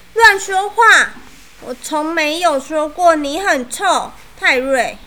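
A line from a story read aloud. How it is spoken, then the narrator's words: Loud. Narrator (Chinese): 我大声说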